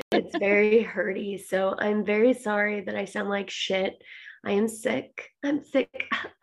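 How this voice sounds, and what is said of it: Raspy, hoarse voice. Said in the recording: “your raspy voice is very... it's very annoying”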